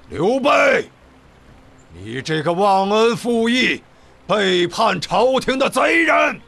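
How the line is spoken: Loud shout. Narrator (Chinese): 曹操大喊

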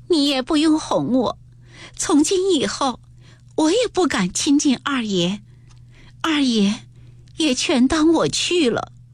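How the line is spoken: Crying. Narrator (Chinese): 黛玉又长不住哭道

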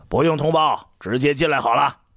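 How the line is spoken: Calling out toward door. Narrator (Chinese): 一志邪没等卫士传话，就对门外喊

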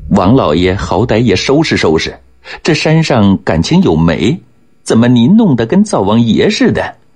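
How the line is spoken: Snickering. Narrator (Chinese): 说着，吭哧地笑着

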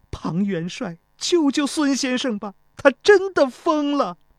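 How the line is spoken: Crying. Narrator (Chinese): 钟离秋哭道

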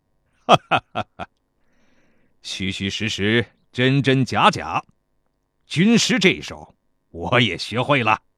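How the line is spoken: Laughing. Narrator (Chinese): 田忌笑着对秦华说道

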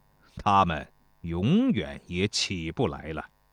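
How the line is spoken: Flat, indifferent. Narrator (Chinese): 曹阳淡淡地对交师说

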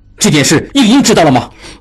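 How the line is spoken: Furious. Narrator (Chinese): 应季大怒

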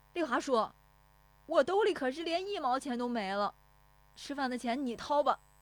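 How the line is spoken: Shouting. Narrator (Chinese): 石有福撵着喊

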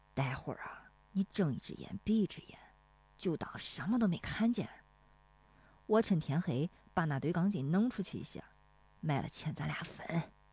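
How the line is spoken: Stern lowered voice. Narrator (Chinese): 大棒槌不笑了，绷着脸压低声音说

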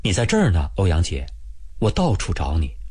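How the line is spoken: Soft woman's voice. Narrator (Chinese): 一个女同志，轻声轻语地说

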